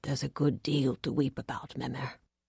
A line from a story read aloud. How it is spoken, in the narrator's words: he said in his quiet voice